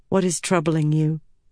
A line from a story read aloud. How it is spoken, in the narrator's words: Avienda asked him